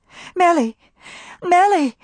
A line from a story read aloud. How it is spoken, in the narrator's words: cried Maybelle, joy in her voice